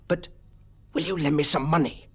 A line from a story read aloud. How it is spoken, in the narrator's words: The bounder's voice was a whisper, and it sounded almost like the hiss of a snake in its intensity